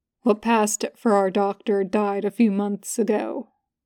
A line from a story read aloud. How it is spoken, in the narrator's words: Cass says calmly